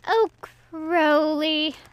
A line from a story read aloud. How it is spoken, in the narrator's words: Aziraphale whined